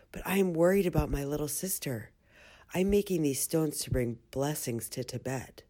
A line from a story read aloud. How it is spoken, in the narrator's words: whispered